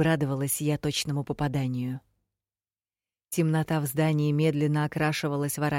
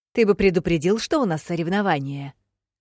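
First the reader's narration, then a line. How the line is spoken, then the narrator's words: Sharp snap. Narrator (Russian): Огрызнулась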